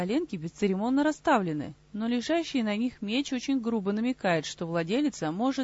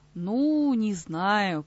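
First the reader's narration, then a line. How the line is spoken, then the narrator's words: Hesitant drawl, nearly giving in. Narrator (Russian): протянула вторая девушка после некоторых раздумий, уже почти сдаваясь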